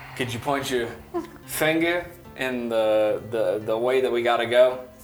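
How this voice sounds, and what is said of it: Put-on Southern US accent. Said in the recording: “Why did I go southern? I'm listening to him talk in this fucking accent.”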